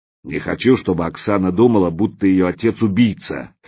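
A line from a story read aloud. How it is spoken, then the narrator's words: Loud, clear. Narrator (Russian): Громко и отчетливо произнес слон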